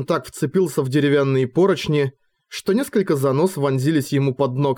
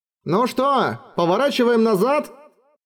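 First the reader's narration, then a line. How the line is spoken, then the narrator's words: Shouting. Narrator (Russian): Флинт с борта Эделайн крикнул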